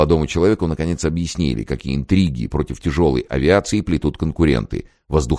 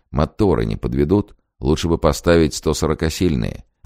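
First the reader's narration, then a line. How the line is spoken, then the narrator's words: Quiet question. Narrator (Russian): тихо спросил изобретателя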